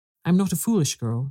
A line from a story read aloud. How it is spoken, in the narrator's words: she said